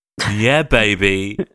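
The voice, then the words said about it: Austin Powers impression. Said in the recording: “do an impression of Austin Powers ... Do one now. ... There's a little bit more to it than that.”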